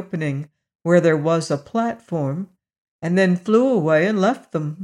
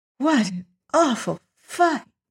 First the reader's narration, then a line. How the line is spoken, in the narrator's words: said Dorothy, catching her breath in little gasps